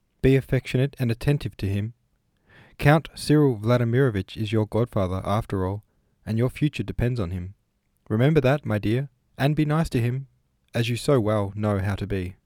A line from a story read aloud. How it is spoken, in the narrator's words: said the mother, timidly and tenderly